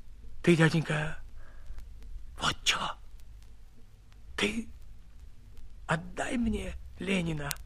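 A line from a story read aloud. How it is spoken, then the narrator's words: Timid whisper. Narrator (Russian): набравшись смелости, шепотом сказал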